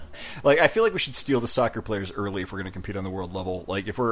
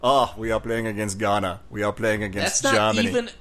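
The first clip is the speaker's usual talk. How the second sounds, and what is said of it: Put-on Caribbean or German accent. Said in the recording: “I'm actually using a Caribbean accent now. ... That's not even a Caribbean accent. ... Oh, no, that was more the German thing.”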